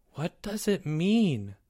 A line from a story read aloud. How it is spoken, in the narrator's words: Timmy whispered